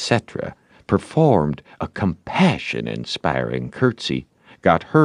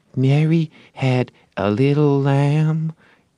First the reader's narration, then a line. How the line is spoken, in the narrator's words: A little shamefaced girl lisped